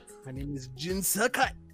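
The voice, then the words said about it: Put-on Japanese samurai-style accent. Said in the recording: “I talk in that like samurai accent.”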